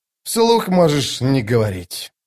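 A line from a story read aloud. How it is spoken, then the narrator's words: Sighing. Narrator (Russian): вздохнул Остряк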